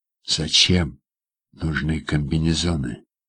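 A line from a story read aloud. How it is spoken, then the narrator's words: Quiet question. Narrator (Russian): тихо спрашиваю я у Льва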